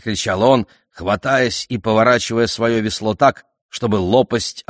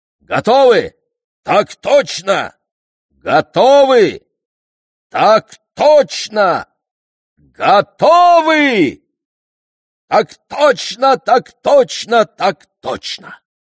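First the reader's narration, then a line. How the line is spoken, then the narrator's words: Cheerful group roar. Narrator (Russian): Бодро взревев, все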